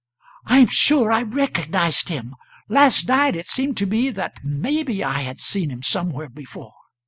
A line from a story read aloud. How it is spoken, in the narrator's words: She came back flushed and a little unsteady on her legs, and gasped out